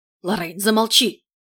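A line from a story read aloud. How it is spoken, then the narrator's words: Hissed. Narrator (Russian): зашипел герцог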